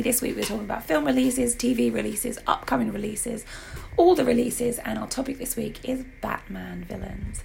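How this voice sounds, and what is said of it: Hoarse, nearly lost voice. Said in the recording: “my voice is completely gone, so you may have to translate.”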